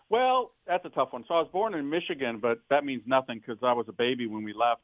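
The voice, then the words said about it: Slight Southern twang. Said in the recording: “you got a little twang going on there”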